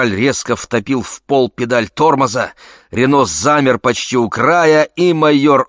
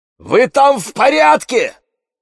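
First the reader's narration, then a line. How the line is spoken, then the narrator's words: Shout over radio. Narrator (Russian): крикнул он в рацию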